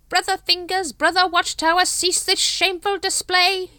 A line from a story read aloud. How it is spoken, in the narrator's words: he screeched